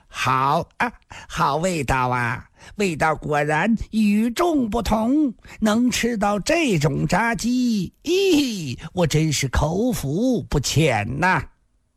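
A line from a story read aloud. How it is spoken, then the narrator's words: Numb, grinning, talking while chewing. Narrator (Chinese): 似已完全麻木了，脸上还是笑嘻嘻的，边嚼边说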